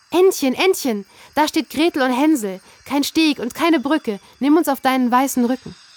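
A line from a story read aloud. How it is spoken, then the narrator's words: Calling out. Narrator (German): rief sie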